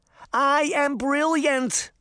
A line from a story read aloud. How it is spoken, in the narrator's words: she shouted